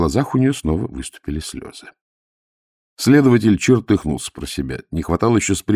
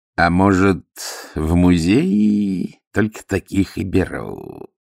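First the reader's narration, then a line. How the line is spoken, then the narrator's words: Sudden nasty voice. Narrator (Russian): Вдруг проговорил кто-то мерзким голосом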